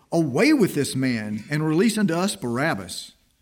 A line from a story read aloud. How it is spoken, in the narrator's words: they cried out all at once, saying